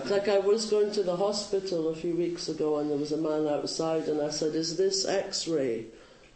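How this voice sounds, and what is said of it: Speaks with a noticeable accent. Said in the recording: “because of my accent. ... I apologised for my accent.”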